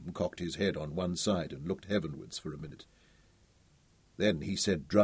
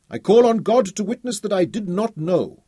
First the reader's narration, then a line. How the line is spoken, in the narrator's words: Mustafa cried passionately